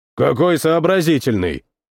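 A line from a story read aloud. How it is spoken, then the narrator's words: Grumbling. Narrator (Russian): проворчал Нарин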